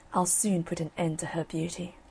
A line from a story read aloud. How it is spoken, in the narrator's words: she muttered below her breath